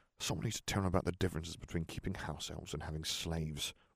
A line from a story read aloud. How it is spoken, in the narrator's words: Ron grumbled